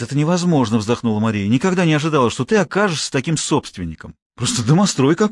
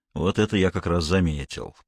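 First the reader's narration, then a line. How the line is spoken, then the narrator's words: Grumbling. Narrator (Russian): проворчал полковник Гуров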